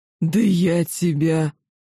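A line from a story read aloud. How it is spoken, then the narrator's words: Monstrous growl. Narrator (Russian): Стремительно теряя человеческий облик, он значительно увеличился в размере и прорычал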